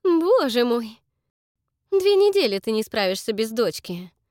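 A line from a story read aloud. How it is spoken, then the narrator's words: Laughing. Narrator (Russian): Рассмеялась Эстер и тут же помрачнела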